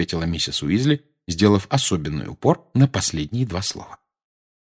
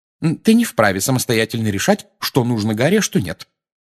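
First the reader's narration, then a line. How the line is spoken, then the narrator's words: Sharp cutting-off, female. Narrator (Russian): резко оборвала его миссис Уизли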